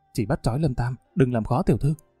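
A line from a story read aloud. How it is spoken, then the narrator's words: Whisper. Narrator (Vietnamese): Một kẻ dáng người nhỏ nhắn thì thầm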